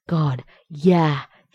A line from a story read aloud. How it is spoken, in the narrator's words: he said, gasping